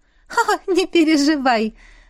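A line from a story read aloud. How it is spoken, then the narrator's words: Laughing. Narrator (Russian): рассмеялась Аиса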